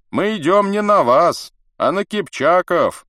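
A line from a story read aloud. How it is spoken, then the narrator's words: Booming voice. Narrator (Russian): зычным голосом отвечал бродник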